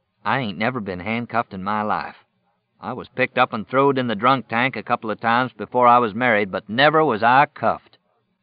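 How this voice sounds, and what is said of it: Slow, pronounced Oklahoma accent. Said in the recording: “was speaking slowly, his Oklahoma accent becoming more pronounced”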